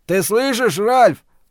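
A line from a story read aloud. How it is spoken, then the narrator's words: Roaring. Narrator (Russian): проревел Стью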